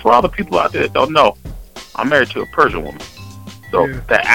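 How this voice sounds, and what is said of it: Usual voice. Nothing is said of it.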